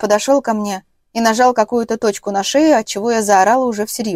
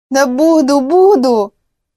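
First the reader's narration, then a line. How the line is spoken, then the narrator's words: Breathless moan. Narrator (Russian): Едва отдышавшись, простонала я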